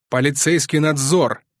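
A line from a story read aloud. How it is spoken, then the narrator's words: Barked. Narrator (Russian): рявкнул Мармеладов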